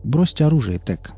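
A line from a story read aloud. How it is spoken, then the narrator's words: Calm voice. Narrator (Russian): сказал он своим, как обычно, спокойным голосом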